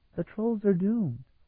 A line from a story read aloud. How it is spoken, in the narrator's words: she said rather sadly